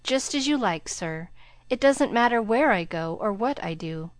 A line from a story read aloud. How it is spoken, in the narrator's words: He sighed, and then said in a spiritless tone